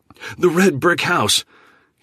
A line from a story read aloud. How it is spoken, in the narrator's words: he immediately shouted with excitement